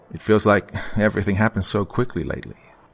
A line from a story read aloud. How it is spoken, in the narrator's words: I sighed